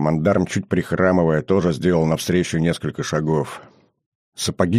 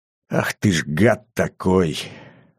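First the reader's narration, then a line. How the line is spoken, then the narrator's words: Emotional hoarse wheeze. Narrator (Russian): От избытка чувств просипел особист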